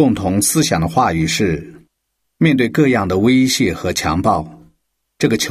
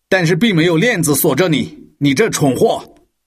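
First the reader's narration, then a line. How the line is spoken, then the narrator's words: Vicious snarl. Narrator (Chinese): 这个官员恶狠狠地咆哮着说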